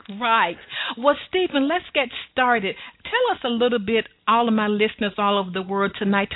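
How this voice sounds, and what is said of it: Southern American accent. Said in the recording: “my wonderful Southern accent ... It's a beautiful accent.”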